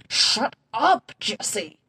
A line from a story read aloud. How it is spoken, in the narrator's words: Rex hisses, still bright red